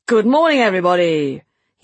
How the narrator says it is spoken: he boomed in his public school accent, roughened up from his years dealing with artists in edgy corners of London

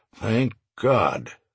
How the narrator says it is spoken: Stone muttered

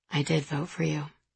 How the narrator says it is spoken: he said softly so only I heard it

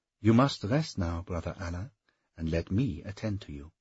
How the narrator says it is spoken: she said, her tone as natural as if he were a welcome guest

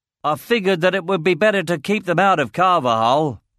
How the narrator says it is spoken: shouted Ridley over the animals

